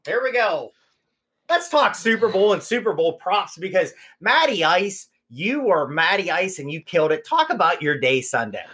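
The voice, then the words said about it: Put-on radio announcer voice. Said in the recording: “My radio voice, everybody.”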